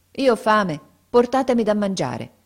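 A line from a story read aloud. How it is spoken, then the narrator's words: Firm tone. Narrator (Italian): rispose con tono fermo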